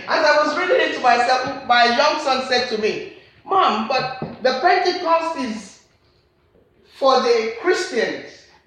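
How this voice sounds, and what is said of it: Nigerian accent. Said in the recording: “I'm a Nigerian, I've got accent”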